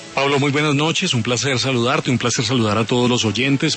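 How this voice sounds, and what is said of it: Strong radio announcer voice. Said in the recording (Spanish): “Tremenda voz de locutor tiene usted”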